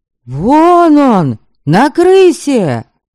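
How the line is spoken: Yell. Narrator (Russian): завопил Витошка

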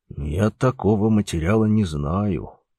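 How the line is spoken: Whispered reply. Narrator (Russian): шепотом ответил бригадир

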